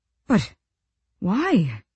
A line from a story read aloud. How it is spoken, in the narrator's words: Colm sputtered